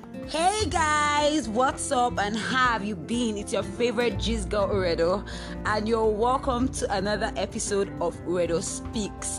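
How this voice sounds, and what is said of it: Excited, happy voice. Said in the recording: “hear the excitement in my voice ... I'm extremely happy”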